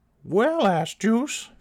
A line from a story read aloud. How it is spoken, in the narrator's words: Phyllis Gunt exclaimed